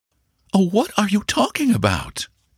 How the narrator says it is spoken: exclaimed the young lady

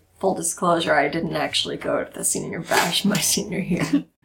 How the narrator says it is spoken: I tell Zoe quietly

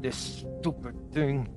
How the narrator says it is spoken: he mumbles

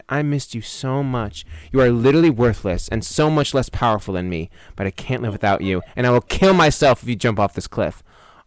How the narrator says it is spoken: Bella sighed

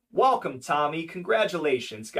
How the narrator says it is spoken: Gotti said

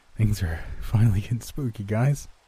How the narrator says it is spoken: he says with a shaky laugh

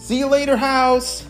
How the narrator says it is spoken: they shouted

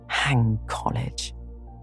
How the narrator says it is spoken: muttered Laurie with an impatient sigh

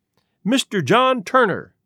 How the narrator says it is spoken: he cried

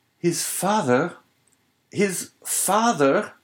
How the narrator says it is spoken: he clasped his hands around his head as though to prevent his very brain from bursting, and exclaimed

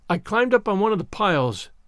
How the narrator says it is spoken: explained Anne wearily

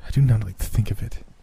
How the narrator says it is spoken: she said unsteadily

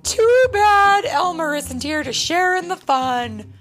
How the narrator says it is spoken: said, laughing harder and harder

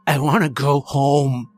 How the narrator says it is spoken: he snarled

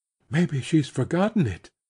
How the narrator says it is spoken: Matty said in a tremulous whisper

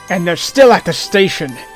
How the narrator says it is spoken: LT said with a sneer

